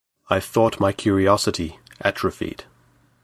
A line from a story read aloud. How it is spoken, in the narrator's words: he answered